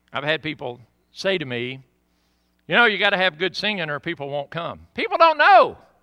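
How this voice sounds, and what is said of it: Southern American accent. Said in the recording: “oh, Pastor, I love your accent. I could listen to you talk all day ... the preacher's southern accent”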